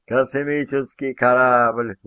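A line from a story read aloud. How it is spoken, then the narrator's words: Blurted, maniacal laughter. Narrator (Russian): выпалил он и рассмеялся совершенно маниакальным смехом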